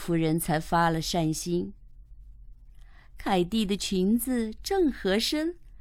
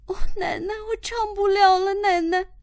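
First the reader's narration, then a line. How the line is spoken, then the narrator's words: Crying. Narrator (Chinese): 她哭着对海奶奶说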